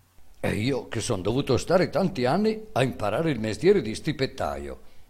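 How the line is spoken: Boy exclaiming. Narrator (Italian): esclamò il ragazzo

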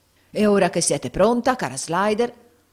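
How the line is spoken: Shouted. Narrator (Italian): urlò Squeers

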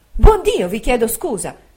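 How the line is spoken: Motherly exclamation. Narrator (Italian): col naturale sentimento d'una madre, ho esclamato

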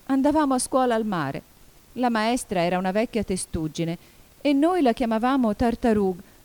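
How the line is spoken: Calmer, still sobbing. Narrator (Italian): riprese finalmente la falsa testuggine, un po' più tranquilla, ma sempre singhiozzando di quando in quando

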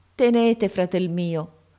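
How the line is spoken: Plain. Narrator (Italian): mi disse

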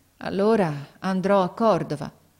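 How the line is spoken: Resigned sighing boy. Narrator (Italian): Il ragazzo mise un sospiro, poi disse con rassegnazione

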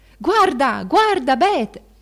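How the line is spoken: Chorus shouting. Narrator (Italian): un coro gridava

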